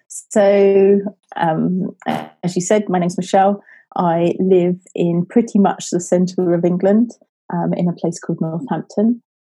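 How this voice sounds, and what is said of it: English accent. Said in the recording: “is joining us from England. And I love your accent”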